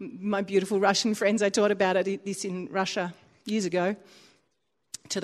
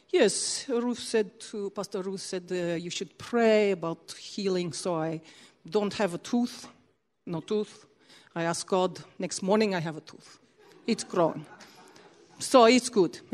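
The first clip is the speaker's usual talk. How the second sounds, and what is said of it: Imitated Russian accent. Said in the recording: “I'll try and do a Russian accent.”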